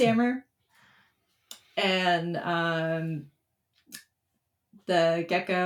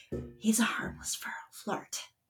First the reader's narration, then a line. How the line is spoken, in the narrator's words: Silas let out a groan, and he suddenly leans into whispering